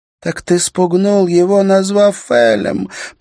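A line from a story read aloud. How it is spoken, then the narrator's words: Moaned. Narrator (Russian): простонала Лис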